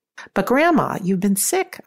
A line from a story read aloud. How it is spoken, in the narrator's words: I exclaimed